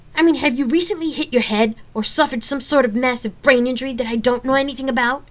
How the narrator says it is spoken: I shouted

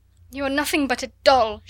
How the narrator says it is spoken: she cried

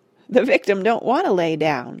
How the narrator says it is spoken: cackled an old man

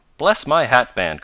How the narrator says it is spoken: cried Mr

